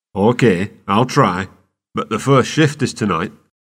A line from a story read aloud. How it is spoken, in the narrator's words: Clem replied